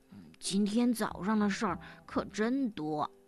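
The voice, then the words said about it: Speaking softly. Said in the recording (Chinese): “小声地说”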